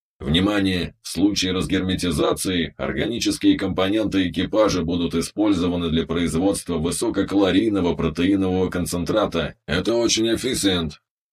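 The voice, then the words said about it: Monotone voice, heavy foreign accent. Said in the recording (Russian): “монотонным голосом с чудовищным акцентом”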